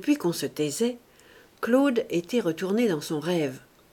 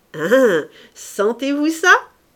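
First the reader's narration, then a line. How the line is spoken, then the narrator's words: Amused shout. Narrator (French): cria Sandoz amusé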